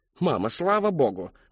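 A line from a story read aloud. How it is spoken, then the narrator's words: Exclaiming. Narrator (Russian): воскликнула миссис Коллинз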